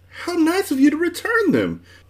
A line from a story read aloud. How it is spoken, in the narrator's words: she cried happily